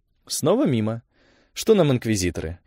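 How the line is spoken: Calm with underlying fury. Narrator (Russian): Ольга говорила спокойно, но что-то яростное в ее тоне прорезалось

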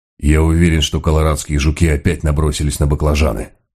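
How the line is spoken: Grumbling. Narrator (Russian): проворчал он

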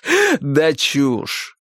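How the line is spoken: Loud laughter. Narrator (Russian): расхохотался хозяин дома

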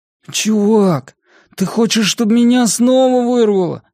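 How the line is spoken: Tired and irritated. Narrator (Russian): Голос Бенни звучал устало и раздраженно

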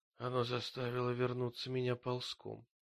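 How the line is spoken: Muttering. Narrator (Russian): пробормотала она

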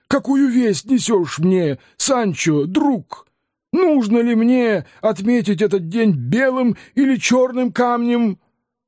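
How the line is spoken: Exclaimed. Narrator (Russian): Дон Кихот воскликнул

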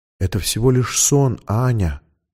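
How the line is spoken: Soothing whisper. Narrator (Russian): шептала тетя Анны Лиза

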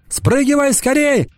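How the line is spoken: Shouting. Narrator (Russian): закричала Анана

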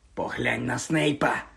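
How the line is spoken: Whisper. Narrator (Ukrainian): прошепотів Рон

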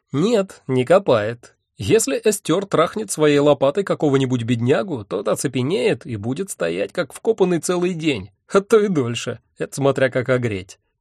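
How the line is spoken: Short laugh. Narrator (Russian): коротко хохотнул Мэсэн

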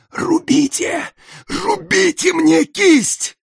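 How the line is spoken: Hoarse wheeze. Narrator (Russian): Тюльпанов прохрипел

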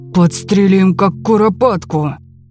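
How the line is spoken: Menacing. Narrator (Russian): грозно сказал Лопоухий

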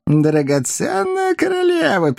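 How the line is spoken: Squeaky voice. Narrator (Russian): пищал Коровьев

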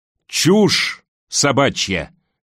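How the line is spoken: Barking into ear. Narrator (Russian): рявкнул он ей в ухо

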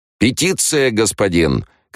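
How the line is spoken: Several voices shouting. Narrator (Russian): кричали первые

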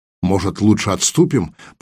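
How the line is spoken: Uneasy grumble. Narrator (Russian): проворчал Кузьма, чувствуя неприятный холодок в груди

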